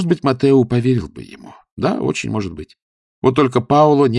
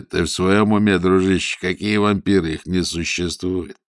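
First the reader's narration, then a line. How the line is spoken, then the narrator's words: Mocking. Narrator (Russian): если бы рядом был Паоло, он бы высмеял его, сказал бы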